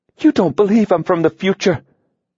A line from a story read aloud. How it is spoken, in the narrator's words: she gasped